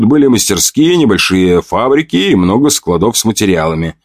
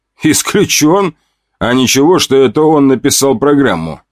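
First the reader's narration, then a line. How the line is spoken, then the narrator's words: Plain. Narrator (Russian): спросил я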